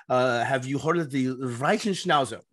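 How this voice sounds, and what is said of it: Heavy put-on German accent. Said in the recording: “with his heavy German accent”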